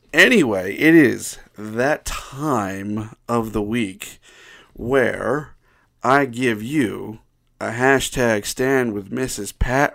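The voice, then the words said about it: Deep voice from a cold. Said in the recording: “my voice just, like, really, really deep today... I really do have a cold, though, so that's why my voice is a little deeper than usual”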